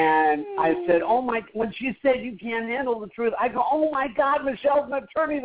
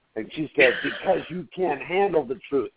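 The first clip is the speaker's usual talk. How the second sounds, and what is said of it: Imitates another person's voice. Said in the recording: “my best Jack Nicholson impression”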